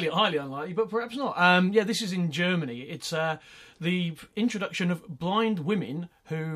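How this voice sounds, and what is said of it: Usual voice. Nothing is said of it.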